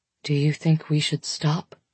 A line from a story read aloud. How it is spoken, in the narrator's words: He asks quietly